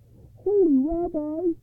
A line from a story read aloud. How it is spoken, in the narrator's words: he cried